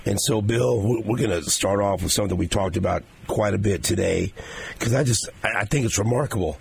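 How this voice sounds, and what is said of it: Hoarse, raspy partly lost voice. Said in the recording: “I started losing my voice last week and totally lost it over the weekend ... I tried to talk today and here, you know what, it's getting better, though ... Patrick Mahomes impersonation”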